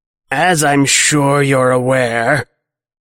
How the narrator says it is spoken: Clocks rasps

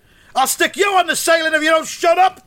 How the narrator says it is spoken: snapped Mugglewump

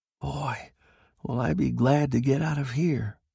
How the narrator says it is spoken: Sheckley muttered

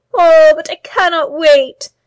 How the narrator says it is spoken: she cried, tears running down her cheeks

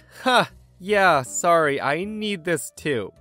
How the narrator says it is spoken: I chuckled nervously and said

